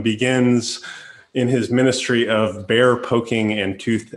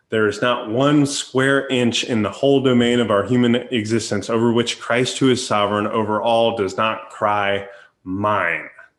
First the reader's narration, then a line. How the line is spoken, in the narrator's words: Jesus says,